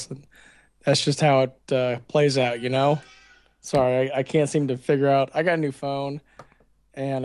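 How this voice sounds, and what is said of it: Hoarse, worn-out voice. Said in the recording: “my voice is pretty much shot ... I caught a cold”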